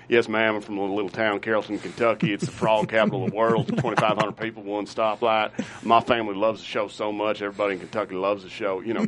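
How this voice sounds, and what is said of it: Over-the-top Kentucky accent. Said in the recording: “the deepest, most over-the-top accent”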